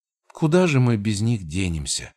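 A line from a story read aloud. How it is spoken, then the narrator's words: Sighing. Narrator (Russian): вздохнула Элара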